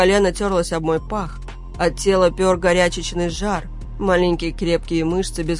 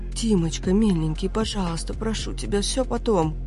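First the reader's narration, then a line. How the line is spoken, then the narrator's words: Breathless choking whisper. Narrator (Russian): захлебываясь, зашептала она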